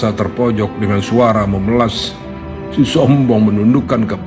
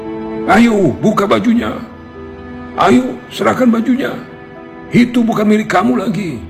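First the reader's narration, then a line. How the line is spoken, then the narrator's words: Angry crowd shouting together. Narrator (Indonesian): geram dengan kelakuan si lelaki sombong rami-rami berteriak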